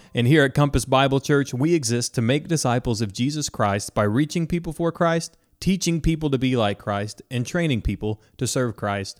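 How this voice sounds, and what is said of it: Polished radio announcer voice. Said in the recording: “You have such a wonderful radio voice.”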